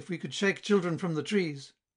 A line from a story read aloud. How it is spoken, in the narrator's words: cried Philina